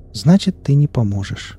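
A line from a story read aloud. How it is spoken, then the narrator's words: Sad. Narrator (Russian): грустно заключила она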